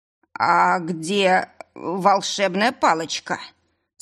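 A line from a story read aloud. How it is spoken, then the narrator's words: Dejected question. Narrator (Russian): спросил он упавшим голосом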